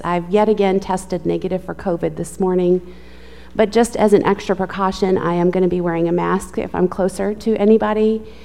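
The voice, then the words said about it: Sick-sounding, strained voice. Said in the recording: “I am struggling with my asthma. I know ... I sound sick.”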